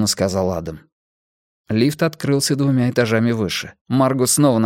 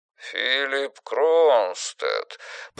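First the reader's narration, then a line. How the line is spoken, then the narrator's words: Drawling. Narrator (Russian): протянул мужчина на другом конце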